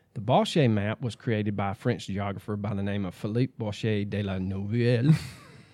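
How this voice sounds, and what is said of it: French accent on French name. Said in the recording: “your accent is spot on. ... Immaculate.”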